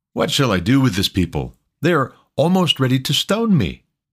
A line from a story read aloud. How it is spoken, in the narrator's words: Moses cried to Yahweh